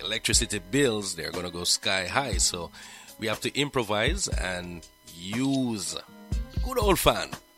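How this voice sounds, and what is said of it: Hoarse voice. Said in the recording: “I am hoarse right now ... that's what is causing my hoarseness.”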